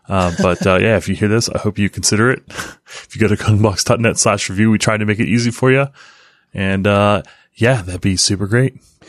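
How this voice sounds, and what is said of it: Smooth jazz radio-style voice. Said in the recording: “my weird voice ... It sounds more like your smooth jazz voice”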